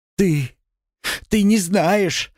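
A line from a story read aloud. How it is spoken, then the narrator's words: Sobbing. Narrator (Russian): зарыдала она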